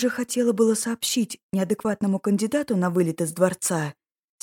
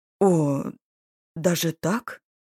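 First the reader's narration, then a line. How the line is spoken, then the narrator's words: Confused muttering. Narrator (Russian): Растерянно пробормотал Брандос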